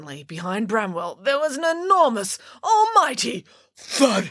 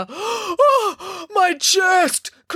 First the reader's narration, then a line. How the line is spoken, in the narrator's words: cried the giant